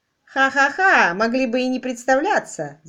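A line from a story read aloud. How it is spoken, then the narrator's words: Laughing. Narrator (Russian): засмеялась миссис Глинко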